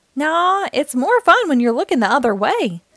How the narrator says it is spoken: said, chuckling

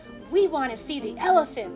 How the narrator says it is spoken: yelled

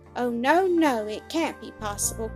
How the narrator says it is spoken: cried the little girl, bursting into an agony of sobs and tears

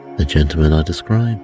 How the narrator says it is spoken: Holmes calmly said

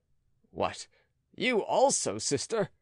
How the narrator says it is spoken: cried

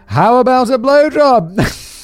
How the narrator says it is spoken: to break the tension and pass over this awkward moment with a lighthearted joke, I said rather loudly

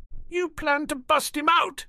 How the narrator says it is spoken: he exclaimed

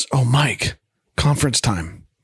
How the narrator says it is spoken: Carol whispers

